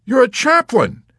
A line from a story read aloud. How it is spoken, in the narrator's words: exclaimed ecstatically